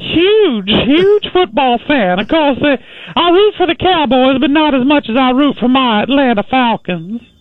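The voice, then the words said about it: Georgia Southern accent. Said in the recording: “Well, I'm from Georgia. ... Can't you tell by my accent?”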